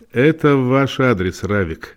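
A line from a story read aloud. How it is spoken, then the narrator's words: Laughing. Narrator (Russian): Вебер рассмеялся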